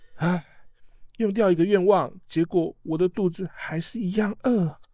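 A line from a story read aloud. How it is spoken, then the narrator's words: Sighing. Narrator (Chinese): 哈利波特……叹气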